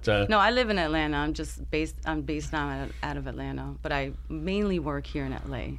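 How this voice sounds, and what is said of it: New York accent. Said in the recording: “From New York. I can tell from that accent already... I can tell you're from New York already. That's there's no question about that”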